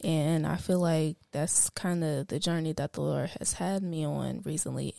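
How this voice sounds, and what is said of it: Raspy, tired, low-energy voice. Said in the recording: “if I sound really, you know, down and raspy ... I am very tired”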